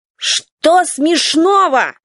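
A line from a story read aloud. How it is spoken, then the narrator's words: Rude yell. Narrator (Russian): заорал экспериментатор, причем достаточно грубо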